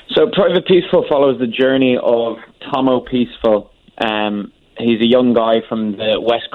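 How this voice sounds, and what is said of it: Irish accent. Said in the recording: “you are from Ireland, correct? Because I kind of hear that in your voice.”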